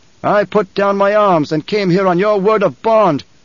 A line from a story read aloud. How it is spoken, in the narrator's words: the Emperor shouted